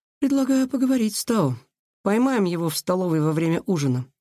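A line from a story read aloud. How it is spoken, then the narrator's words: Sighing. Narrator (Russian): вздохнула Кира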